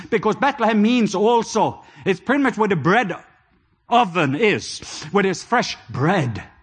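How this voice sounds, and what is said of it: European accent in English. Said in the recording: “I'm a European, and you can maybe hear it on my accent”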